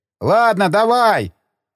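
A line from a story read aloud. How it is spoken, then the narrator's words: Shouted. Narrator (Russian): крикнул второй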